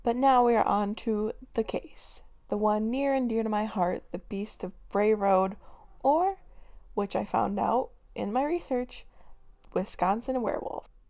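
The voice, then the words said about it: Slightly raspy voice. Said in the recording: “my voice is a little raspy today. Some days it doesn't want to perk up”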